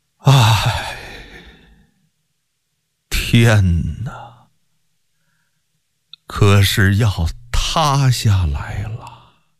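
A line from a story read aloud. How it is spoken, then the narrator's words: Choked sorrowful sigh. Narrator (Chinese): 忍不住哽咽流泪，轻轻地悲叹一声，不自觉地说道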